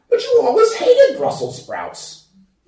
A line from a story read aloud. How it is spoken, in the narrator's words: exclaimed incredulously